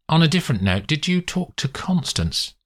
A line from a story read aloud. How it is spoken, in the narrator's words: He falters